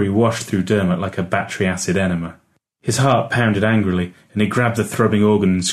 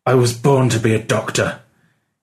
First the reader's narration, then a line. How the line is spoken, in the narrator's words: said through gritted teeth